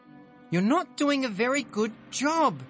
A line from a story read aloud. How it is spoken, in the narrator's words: she shrieks